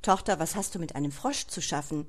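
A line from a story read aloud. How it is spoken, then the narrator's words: Stern father asking. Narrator (German): fragte der Vater streng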